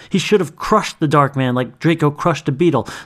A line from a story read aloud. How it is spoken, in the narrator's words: snapped the man